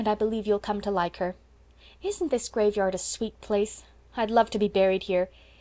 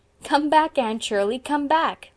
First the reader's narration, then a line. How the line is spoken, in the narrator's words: laughed Philippa